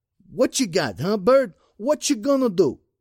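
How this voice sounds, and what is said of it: Weak New York tough-guy accent, quavering. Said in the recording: “His New York tough guy accent wasn't nearly as good as his Rod Serling. The quaver in his voice didn't help.”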